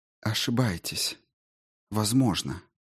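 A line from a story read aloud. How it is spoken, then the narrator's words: Quiet voice. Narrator (Russian): тихо произнес кто-то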